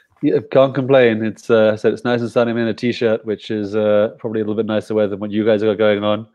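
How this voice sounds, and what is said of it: British accent. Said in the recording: “you can tell from my accent, I wasn't born and raised in Guatemala. So I was originally British”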